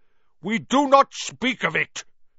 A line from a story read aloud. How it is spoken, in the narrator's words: said Aragog fiercely